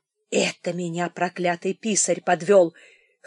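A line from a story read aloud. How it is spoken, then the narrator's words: Old man wheezing. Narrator (Russian): хрипел старик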